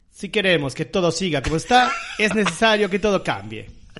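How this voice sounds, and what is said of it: Imitates another person's voice. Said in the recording (Spanish): “Voy a poner voz de Burt Lancaster. ... medio clavadita la voz a la de Burt Lancaster.”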